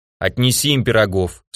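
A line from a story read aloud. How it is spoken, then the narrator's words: Stern order. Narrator (Russian): строго приказал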